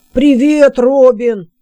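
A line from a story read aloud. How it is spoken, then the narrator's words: Shouted greeting. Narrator (Russian): крикнул отец Тук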